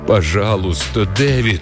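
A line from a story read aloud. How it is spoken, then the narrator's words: Low voice, repeated. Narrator (Russian): повторила она низким голосом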